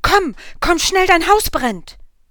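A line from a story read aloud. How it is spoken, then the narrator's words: Excited neighbor shouting. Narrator (German): ein Nachbar herein und ruft aufgeregt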